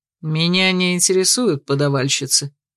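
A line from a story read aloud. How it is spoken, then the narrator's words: Dry curt retort. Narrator (Russian): сухо отрезал Ярти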